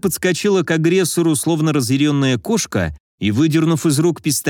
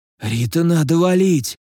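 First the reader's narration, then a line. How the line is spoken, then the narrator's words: Hoarse rasp. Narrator (Russian): Прохрипел я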